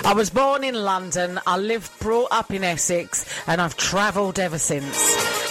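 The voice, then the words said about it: Mixed British accent, weak Scottish. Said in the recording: “my accent is all over the place ... My Scottish accent is terrible, though. I do sound like someone trying to do the Scottish accent.”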